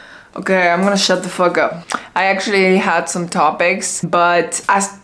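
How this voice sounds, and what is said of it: Usual voice. Nothing is said of it.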